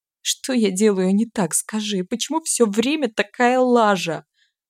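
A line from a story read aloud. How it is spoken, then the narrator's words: Pitiful sob. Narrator (Russian): Жалко всхлипнула я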